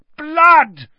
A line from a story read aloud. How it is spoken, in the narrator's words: Ron yelled into the stunned silence